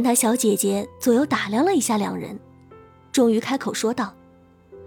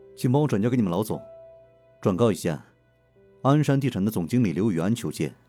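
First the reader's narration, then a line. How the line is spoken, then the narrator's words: Deep, steady voice. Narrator (Chinese): 刘雨安沉声说道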